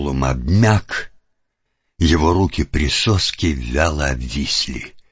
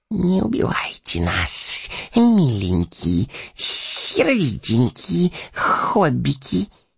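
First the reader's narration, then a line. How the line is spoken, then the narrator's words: Hoarse wheezing plea. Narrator (Russian): сипел Горлум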